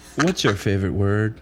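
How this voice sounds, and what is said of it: Weak James Lipton impression. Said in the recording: “worst James Lipton impression ever ... I can't do a Lipton”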